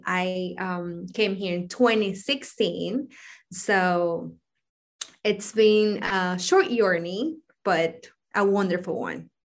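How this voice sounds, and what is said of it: Ecuadorian-accented English. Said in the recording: “I am originally from Ecuador ... people think I'm an international student ... because of my accent”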